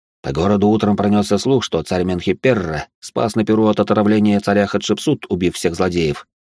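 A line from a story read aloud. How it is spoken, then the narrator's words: Plain. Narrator (Russian): сказал воин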